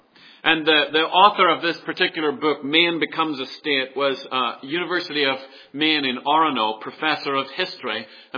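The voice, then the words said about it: Ulster accent. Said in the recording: “Both those words are difficult with my Ulster accent”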